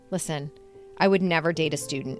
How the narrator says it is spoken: he said

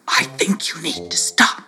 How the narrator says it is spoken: he whispered

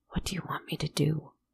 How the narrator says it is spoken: he whispered

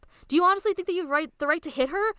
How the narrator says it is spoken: Rin yells

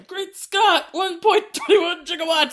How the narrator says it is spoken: he starts just yelling out

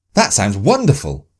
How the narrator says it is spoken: Sophie said excitedly

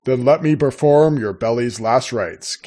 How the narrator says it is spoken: Caleb said

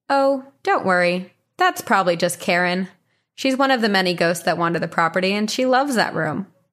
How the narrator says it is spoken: the owner calmly replied with

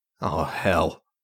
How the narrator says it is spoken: Julian muttered to himself

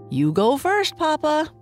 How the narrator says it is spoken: Boo Boo said with a laugh

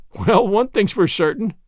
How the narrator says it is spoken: said Gilbert, laughing

